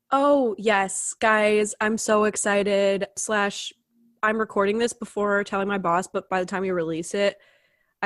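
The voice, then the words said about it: Slightly raspy voice. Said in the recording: “My voice is a little raspy today ... I like it when my voice is a little bit raspy”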